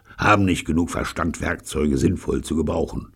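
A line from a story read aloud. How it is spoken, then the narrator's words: Grumbling. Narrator (German): brummte Pyecraft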